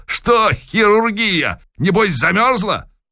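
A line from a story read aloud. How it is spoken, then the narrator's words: Cheerful shout. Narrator (Russian): Захарыч весело прокричал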